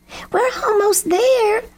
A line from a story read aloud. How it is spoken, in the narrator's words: Lucy Crow shouted